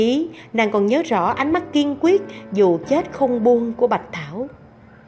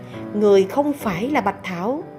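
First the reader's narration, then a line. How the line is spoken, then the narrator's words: Shaky but firm. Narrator (Vietnamese): Tay Hoa Khai run run nhưng vẫn khẳng định nói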